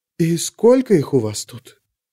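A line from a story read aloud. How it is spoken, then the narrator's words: Whisper. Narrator (Russian): прошептала Савин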